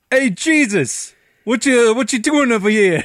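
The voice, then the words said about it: Put-on New York accent. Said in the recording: “I love every accent ... Tons of like New York white people”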